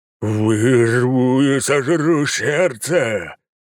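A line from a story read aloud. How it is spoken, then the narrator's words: Enraged growl after blow. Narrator (Russian): зарычал он после того, как я впечатал ему в переносице свой ботинок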